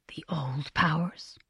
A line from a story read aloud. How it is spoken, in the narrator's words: Ogaian murmured